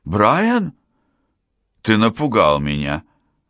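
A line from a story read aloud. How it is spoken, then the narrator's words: Startled exclamation. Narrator (Russian): воскликнула я, задумавшись, как долго он за мной наблюдает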